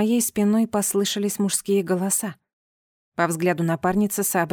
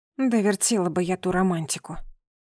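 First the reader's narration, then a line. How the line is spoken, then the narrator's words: Grumbled. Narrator (Russian): проворчала я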